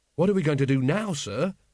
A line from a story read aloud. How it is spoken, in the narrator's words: said Carrot anxiously